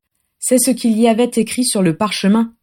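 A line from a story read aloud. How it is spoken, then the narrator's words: Flat toneless voice. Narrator (French): dit Adam d'une voix blanche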